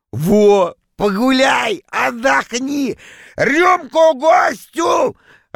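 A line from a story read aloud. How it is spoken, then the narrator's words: Joyful loud shout. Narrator (Russian): радостно закричал он на весь зал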